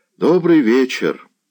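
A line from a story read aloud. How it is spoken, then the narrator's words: Plain. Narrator (Russian): ответил Заглоба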